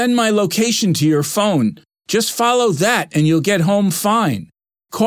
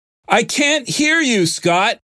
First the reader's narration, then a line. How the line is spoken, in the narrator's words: the man shouted